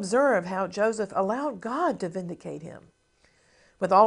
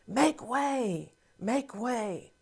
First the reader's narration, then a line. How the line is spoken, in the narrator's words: the runners exclaimed